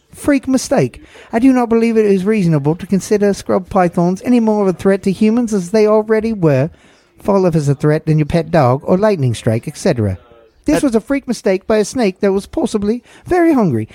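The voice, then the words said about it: Put-on Australian accent. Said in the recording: “I want to do it in my best Australian accent.”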